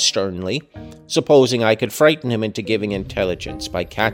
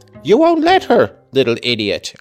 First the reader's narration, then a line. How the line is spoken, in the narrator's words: I exclaimed